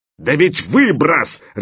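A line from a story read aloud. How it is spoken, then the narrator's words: Elephant's bark. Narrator (Russian): рявкнул слон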